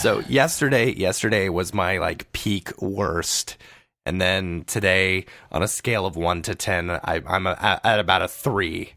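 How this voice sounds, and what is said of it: Sick, rough-sounding voice. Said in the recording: “you sound terrible.”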